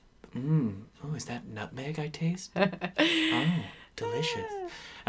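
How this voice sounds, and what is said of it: Breathy close-mic radio voice. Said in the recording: “you're totally doing a sweaty balls radio voice ... all up in it like”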